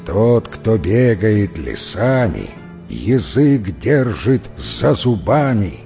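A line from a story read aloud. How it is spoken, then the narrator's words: Muttered through clenched teeth. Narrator (Russian): сквозь зубы бормотать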